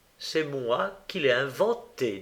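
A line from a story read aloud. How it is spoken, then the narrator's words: Plain. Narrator (French): dit-il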